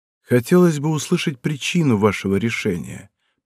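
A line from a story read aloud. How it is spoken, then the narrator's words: Calm. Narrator (Russian): произнес спокойно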